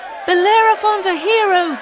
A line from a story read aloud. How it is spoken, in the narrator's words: they cried